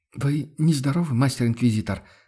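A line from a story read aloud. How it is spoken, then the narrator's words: Timid question. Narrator (Russian): Робко поинтересовалась Амалия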